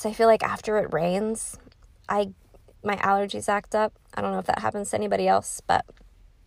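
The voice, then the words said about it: Slightly congested, allergy-affected voice. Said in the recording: “I just was having a lot of difficulties um, with my asthma and allergies ... You can still kind of hear it in my voice.”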